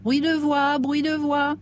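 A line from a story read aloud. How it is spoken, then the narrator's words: Shrill yelping voice. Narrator (French): glapit une voix aigre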